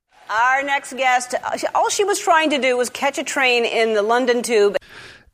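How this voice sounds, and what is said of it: American accent. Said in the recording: “accent is interesting, you know, American.”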